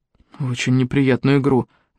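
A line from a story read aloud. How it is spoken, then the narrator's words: Gloomy interjection. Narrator (Russian): мрачно вставил Макгрегор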